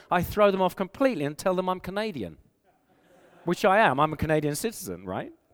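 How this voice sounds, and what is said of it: English accent. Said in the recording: “I have an English accent, and so people know I'm from England, unless they mistake me for being Australian”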